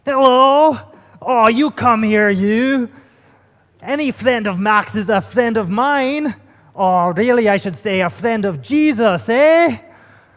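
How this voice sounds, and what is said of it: Attempted Scottish accent. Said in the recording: “I'm going to try a Scottish accent here. You guys have to have mercy.”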